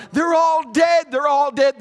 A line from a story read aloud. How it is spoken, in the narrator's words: Other parents hysterical, screaming and yelling